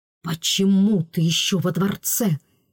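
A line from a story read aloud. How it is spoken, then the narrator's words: Hissed. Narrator (Russian): прошипел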